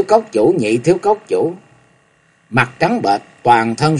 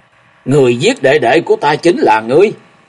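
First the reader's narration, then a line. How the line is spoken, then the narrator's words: Sudden roar. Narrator (Vietnamese): nhị thiếu cốc chủ thì đột ngột gầm lên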